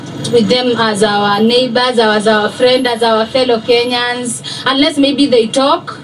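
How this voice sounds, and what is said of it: Kenyan English accent. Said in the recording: “Her accent ... I love the the Kenyan accent ... like a it's like a British uh, you know, kind of slang”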